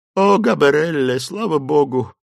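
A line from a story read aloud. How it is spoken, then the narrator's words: Relieved sigh. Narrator (Russian): вздохнула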